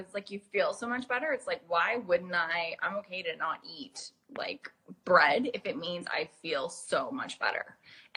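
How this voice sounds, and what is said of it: Hybrid accent. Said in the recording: “she has the cutest hybrid accent ever ... accent”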